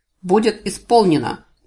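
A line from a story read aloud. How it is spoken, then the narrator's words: Deafening bark. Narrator (Russian): гаркнул Гур, так оглушительно, что у меня заложило уши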